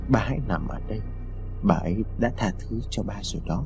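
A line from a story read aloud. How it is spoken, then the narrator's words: Soft murmur. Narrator (Vietnamese): Lý khẽ nói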